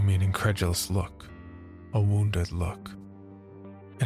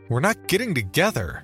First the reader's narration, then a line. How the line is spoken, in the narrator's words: shouted, fury seizing every muscle in my body